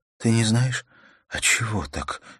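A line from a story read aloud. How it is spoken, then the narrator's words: Weak girl's voice. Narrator (Russian): спросила девушка слабым голосом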